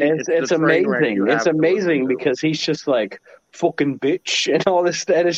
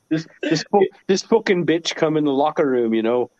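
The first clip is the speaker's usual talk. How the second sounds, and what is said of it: Imitates another person's accented voice. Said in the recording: “The accent puts it over.”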